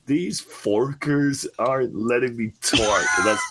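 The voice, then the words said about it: Imitates another person's voice, poorly. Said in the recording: “my best Genius impression. He sounds more like fucking Homer Simpson now ... That's pretty bad.”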